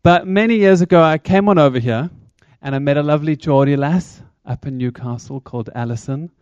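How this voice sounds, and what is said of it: South African accent. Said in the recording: “my accent is South African”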